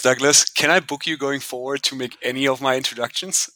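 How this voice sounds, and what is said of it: German accent. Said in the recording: “he's got a German accent that's hotter than a pretzel straight out of the oven.”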